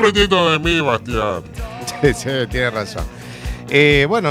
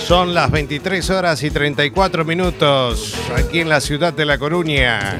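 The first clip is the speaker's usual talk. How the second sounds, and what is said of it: Radio announcer voice. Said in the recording (Spanish): “está aprendiendo con voz de locutor”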